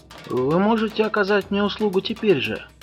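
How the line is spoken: Plain. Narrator (Russian): сказал он

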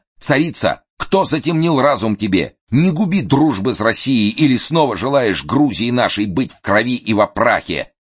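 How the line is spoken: Frenzied dying scream. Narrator (Russian): Убиваемый кинжалами царевичей, комендант Тифлиса кричал исступленно

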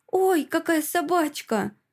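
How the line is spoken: Exclaimed. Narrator (Russian): воскликнула

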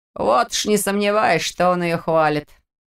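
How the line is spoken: Sudden scoffing. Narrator (Russian): неожиданно хмыкнул Петр

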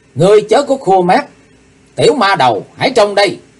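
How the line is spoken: Hateful scream. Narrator (Vietnamese): Chí Tôn căm hờn thét

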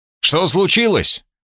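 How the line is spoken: Shouted from above. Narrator (Russian): крикнул я сверху

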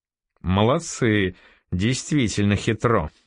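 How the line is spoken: Laughing. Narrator (Russian): засмеялся Норман

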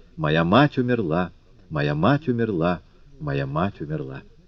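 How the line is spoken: Soft rocking croon. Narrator (Russian): укачивая, тихо напевала

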